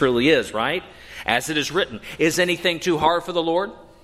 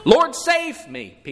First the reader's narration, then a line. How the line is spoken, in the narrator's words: Peter cried